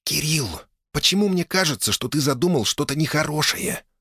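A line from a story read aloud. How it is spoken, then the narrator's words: Hiss. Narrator (Russian): прошипела Оля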